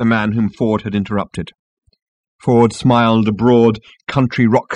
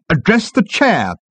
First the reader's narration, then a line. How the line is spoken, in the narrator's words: snapped the management consultant